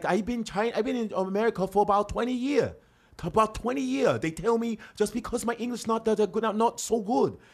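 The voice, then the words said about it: Put-on Chinese accent. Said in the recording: “Asian accent ... if I do Chinese”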